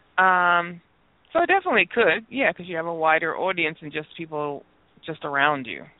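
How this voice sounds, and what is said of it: New York accent. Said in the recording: “She's so proper when she says audience ... That New York accent.”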